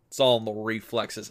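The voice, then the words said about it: Bad Jack Burton / Kurt Russell impression. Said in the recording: “a pretty bad Jack Burton impression. It's mostly my impression... of Kurt Russell impersonating John Wayne”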